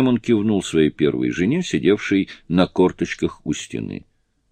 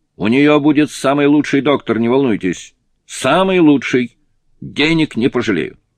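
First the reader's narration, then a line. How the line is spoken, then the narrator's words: Shout. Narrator (Russian): Он крикнул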